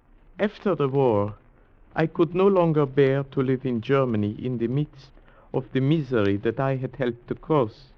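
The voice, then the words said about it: German accent. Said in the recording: “your accent, you're German”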